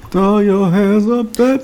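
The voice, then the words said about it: Imitates another person's singing voice. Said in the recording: “I'm giving my best Michelle Williams impression.”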